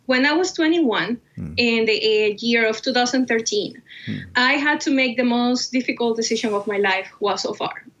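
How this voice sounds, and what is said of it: Cuban Spanish accent. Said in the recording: “As you can tell by my name and my accent, yes, I was born and raised in Cuba.”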